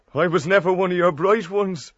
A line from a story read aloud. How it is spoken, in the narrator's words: he added with a half laugh